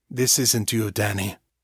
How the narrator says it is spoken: Trace said quietly

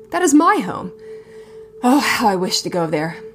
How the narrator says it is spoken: Johannes returned breathlessly, trying to match the man's pace

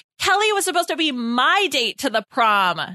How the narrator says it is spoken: Nora yelled

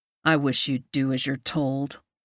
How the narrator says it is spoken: he growls against my lips

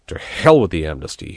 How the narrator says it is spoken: said furiously

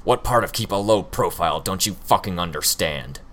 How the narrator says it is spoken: Hookwolf growled

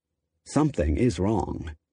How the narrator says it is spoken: Lee muttered darkly, if vaguely

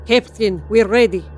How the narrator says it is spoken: said Potty Elsa in a thick Russian accent

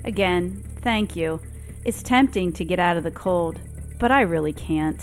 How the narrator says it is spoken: She sighs and says

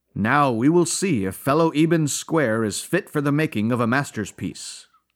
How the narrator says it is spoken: he says

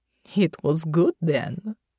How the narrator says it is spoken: Natasha asked with a chuckle

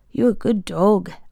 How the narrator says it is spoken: Alf murmured

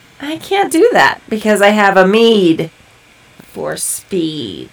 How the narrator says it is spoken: I slowly smirked as the fire in my eyes glowed as brightly as the flames in my hand and said

